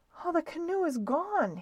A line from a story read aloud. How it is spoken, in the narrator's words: groaned